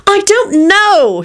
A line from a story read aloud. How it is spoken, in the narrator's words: snapped Rosie